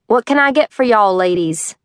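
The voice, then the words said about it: Put-on Southern accent. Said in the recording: “Southern accent. Definitely a homegrown kind of boy.”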